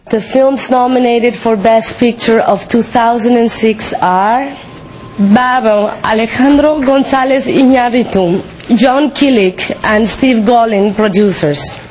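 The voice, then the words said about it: Thick accent. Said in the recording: “Sometimes her accent is a little thick.”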